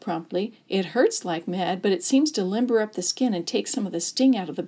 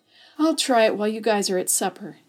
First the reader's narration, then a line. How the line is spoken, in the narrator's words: Sammy moaned